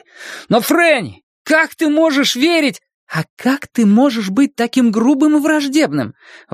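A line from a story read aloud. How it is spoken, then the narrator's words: Exclaimed. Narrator (Russian): воскликнула она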